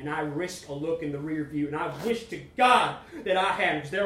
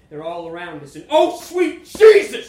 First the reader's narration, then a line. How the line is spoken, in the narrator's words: I scream